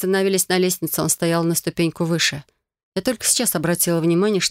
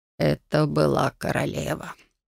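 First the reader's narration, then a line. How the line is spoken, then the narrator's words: Barely audible. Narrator (Russian): едва слышно произнес магистр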